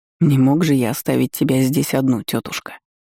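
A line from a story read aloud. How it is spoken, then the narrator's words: Sickly sweet voice. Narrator (Russian): Приторно сладким голосом ответил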